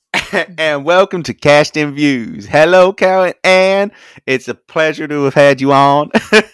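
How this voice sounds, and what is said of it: Put-on American Deep South accent. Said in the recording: “your deep south voice”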